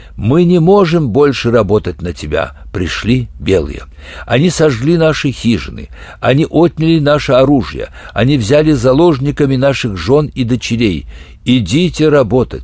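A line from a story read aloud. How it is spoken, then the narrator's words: Plain. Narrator (Russian): сказали они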